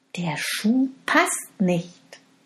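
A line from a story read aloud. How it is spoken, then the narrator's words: Plain. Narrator (German): sagte der Königssohn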